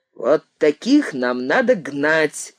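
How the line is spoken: Loud, from the left. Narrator (Russian): громко сказали слева

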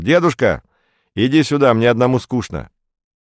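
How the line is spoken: Cheerful shout. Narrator (Russian): весело крикнул

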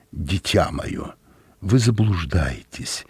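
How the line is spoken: Gentle, soft. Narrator (Russian): мягко произнес Дюбарнстокр

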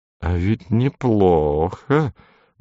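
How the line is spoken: Muttering. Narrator (Russian): бормотал мастер

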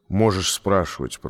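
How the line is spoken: Grumbled. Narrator (Russian): проворчал он

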